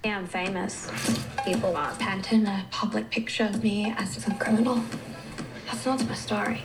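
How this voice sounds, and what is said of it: Weird put-on German accent. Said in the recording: “That is a weird accent. ... Isn't she supposed to be Russian? ... she's supposed to be German. ... Like it's insane.”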